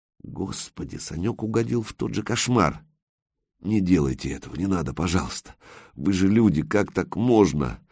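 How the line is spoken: Very quiet muffled mumble. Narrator (Russian): Совсем тихонько бормотал, потому что рот не открыть

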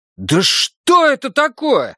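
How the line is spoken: Frustrated yell. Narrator (Russian): завопил я, пропустив важный момент в игре

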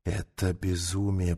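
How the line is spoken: Whispered. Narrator (Russian): прошептал командир

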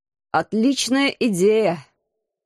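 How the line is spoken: Hoarse reply. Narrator (Russian): хрипло откликнулся командор

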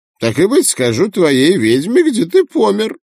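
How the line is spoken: Laughing. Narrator (Russian): Я рассмеялся

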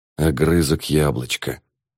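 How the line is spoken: Sudden whisper. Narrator (Russian): вдруг он прошептал

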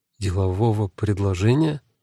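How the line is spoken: Confused, asking back. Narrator (Russian): растерянно переспросила Люси

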